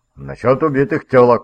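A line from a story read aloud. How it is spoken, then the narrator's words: Barked. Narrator (Russian): рявкнул Хенриган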